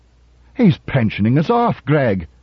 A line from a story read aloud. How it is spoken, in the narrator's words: yelled Donovan